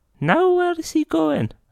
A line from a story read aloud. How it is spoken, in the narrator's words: exclaimed Mrs